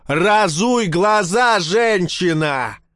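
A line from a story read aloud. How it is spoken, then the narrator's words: Yelling. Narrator (Russian): заорал он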